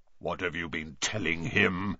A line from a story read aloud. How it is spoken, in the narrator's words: growled Bane